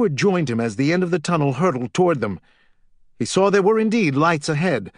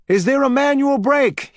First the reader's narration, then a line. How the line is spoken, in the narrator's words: he called out